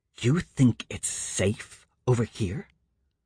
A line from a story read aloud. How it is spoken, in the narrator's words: Courtney hissed